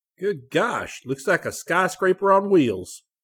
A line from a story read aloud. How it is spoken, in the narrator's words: Scotty exclaimed